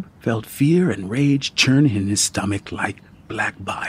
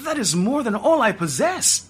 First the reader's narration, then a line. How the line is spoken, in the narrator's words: Ajib exclaimed